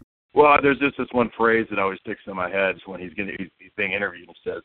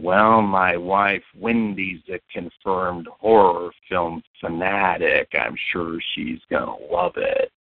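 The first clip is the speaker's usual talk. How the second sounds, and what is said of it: Imitates another person's voice. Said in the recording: “my Jack Nicholson impersonation”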